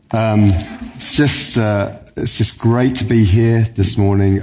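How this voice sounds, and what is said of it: Unusually deep, cold-affected voice. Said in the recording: “my deep voice. I don't normally have a voice as deep as this. ... the vaccinations I've been taking or a cold”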